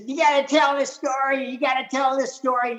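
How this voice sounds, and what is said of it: Imitates another person's voice. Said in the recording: “this is my Billy D impression. I only do an impression of him because I love him.”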